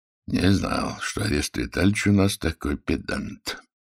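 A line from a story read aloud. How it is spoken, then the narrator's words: Joking grumble under breath. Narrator (Russian): шутливо проворчал генерал себе под нос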